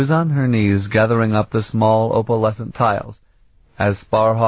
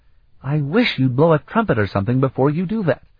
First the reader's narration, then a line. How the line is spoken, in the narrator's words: Sarabian exclaimed, in shocked surprise